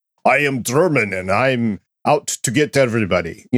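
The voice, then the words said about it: Put-on Red Skull villain accent. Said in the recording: “Your accent right there was so much better than what they had in the episode ... I do a sucky accent”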